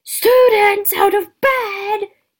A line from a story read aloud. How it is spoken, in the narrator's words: Peeves bellowed